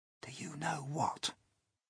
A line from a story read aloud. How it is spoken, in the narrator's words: James whispered